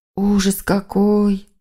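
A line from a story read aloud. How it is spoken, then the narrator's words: Moaning. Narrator (Russian): простонала племянница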